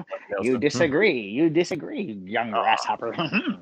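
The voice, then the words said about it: Martial arts movie master voice. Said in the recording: “I'm talking like a martial arts movie.”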